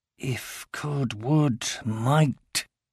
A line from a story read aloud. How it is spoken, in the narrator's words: he muttered